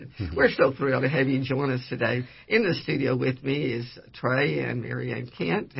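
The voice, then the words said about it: Slightly raspy voice. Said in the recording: “I've got a little raspy voice from some of the good Texas air that's blowing around”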